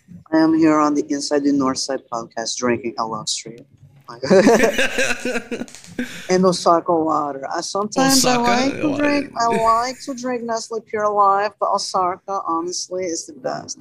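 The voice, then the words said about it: Imitates another person's accented voice. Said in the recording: “Oh yeah, like that accent where it's like... That's a good impression, I'm not going to lie. That's good.”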